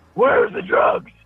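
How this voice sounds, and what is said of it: Imitates Batman's voice. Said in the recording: “That was my Batman impersonation.”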